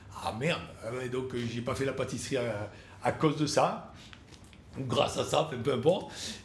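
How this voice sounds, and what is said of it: Marseille southern French accent. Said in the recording (French): “j'avais un accent encore plus prononcé qu'aujourd'hui ... avec son accent lui, reste à Marseille”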